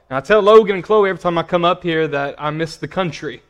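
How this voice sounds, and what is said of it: Small-town Arkansas accent. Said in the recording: “I don't know if you can tell from my accent or not. I'm originally from a small town called Paragould, Arkansas.”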